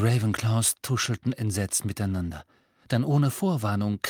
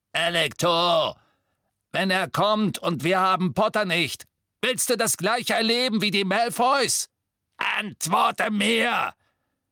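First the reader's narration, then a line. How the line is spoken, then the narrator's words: Roaring, pounding on door. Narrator (German): Amicus brüllte und trommelte mit aller Macht gegen die Tür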